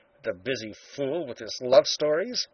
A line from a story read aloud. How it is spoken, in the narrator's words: he muttered